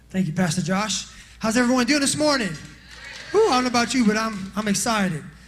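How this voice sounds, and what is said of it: Out of breath, excited. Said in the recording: “You can see I'm out of breath because I'm excited”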